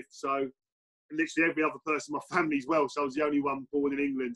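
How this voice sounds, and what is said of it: English rather than Welsh accent. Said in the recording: “as you can tell by my accent, I wasn't born and bred in Wales”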